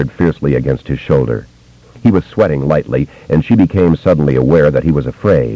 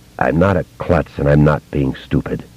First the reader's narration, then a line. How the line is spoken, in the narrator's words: he said in that same voice, which was simultaneously flat and choked with emotion